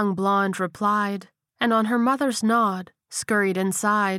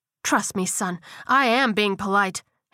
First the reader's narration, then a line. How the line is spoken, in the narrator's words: his mother snapped